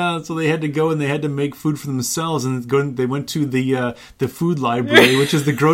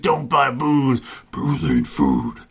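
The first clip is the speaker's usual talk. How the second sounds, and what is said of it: Growly Cookie Monster-like character voice. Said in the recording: “my Nathan Explosion impression ... It's pretty good ... it's a little like Cookie Monster, though, too”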